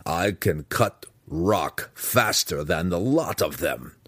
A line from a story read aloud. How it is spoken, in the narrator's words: the Burrowwoman growled fiercely